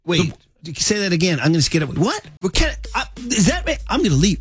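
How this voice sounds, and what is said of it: Imitates another person's voice. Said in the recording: “doing my Steph impression ... That was my Steph comedy impression.”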